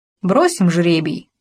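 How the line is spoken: Plain. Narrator (Russian): сказал Мэтт

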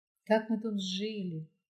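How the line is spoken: Moved, emotional voice. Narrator (Russian): заговорила Лариса растроганным голосом

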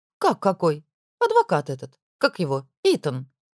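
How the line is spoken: Thoughtful. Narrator (Russian): Задумчиво произнесла Мелани

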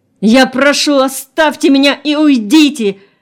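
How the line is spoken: Frenzied shout. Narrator (Russian): Вдруг исступленно закричал человек

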